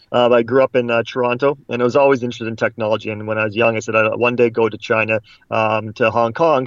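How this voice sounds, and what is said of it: Canadian English accent. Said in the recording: “I'm a Canadian, you might tell from my accent”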